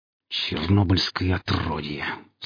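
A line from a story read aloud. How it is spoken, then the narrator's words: Hiss through teeth. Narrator (Russian): сквозь зубы прошипел гриф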